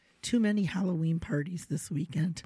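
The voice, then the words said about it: Hoarse, strained voice. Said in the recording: “what's with your voice this week, huh? ... recovering from a little bit of laryngitis.”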